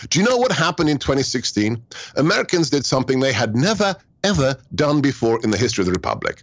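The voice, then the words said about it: Foreign accent. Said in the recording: “an immigrant with a funny accent”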